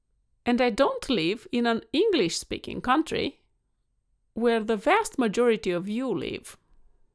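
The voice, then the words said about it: Non-native English accent. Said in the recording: “I speak English with an accent”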